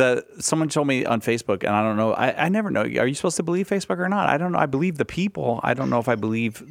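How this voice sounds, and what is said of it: Usual voice. Nothing is said of it.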